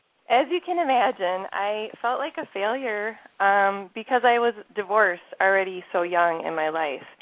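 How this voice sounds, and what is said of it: Minnesota accent. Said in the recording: “my Minnesota accent already coming through here”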